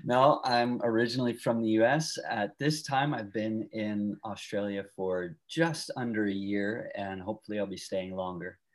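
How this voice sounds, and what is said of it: Non-Australian, American accent. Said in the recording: “your accent, knowing yet that you're definitely not from Australia.”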